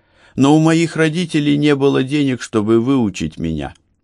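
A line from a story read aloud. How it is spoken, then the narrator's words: Sighing. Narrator (Russian): вздохнул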